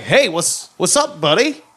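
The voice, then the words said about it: Put-on American accent. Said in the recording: “Americans are more like ... can maintain that accent for the entirety of the episode”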